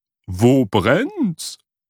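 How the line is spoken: Called out. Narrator (German): rief sie

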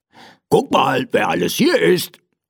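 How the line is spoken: Man calling out. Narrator (German): rief er mir zu

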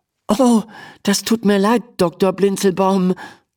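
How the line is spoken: Stammering. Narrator (German): stammelt Emma

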